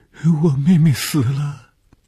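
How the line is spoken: Crying girl. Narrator (Chinese): 这是一个可怜的女孩，见着红鱼便哭起来

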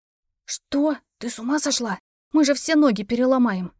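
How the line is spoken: Hissing. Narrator (Russian): прошипела Вики

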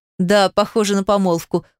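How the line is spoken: Laughing. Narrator (Russian): хохотнул Павел

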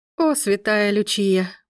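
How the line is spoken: Muttered. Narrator (Russian): пробормотала Мия

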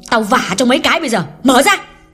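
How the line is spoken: Angry loud yell. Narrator (Vietnamese): Hương trợn mắt quát lớn

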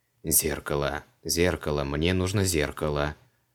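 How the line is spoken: Muttered. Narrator (Russian): забормотал он

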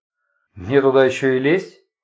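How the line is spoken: Cold inquiry. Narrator (Russian): холодно осведомился Сергей Самсонович

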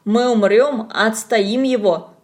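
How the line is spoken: Declared. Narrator (Russian): заявил Коля

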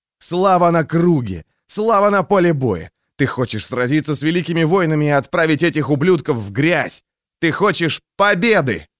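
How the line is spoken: Shouted like battle cry. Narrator (Russian): Он выкрикнул это слово как боевой клич

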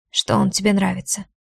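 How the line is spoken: Hoarse reply. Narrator (Russian): хрипло отвечает Ваня

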